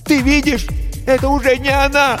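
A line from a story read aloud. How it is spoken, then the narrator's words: Shout. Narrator (Russian): крикнула Рип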